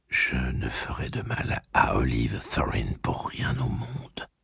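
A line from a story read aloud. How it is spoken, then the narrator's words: Whispered in ear. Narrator (French): lui murmura-t-elle à l'oreille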